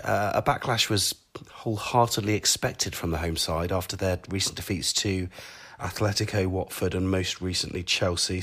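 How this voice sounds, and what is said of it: Hoarse voice. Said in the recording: “with my hoarse voice”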